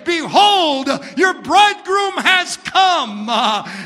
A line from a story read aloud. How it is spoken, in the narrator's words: the archangel that'll be shouting